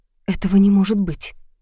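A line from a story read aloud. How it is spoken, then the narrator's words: Confused mutter. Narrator (Russian): растерянно пробормотала я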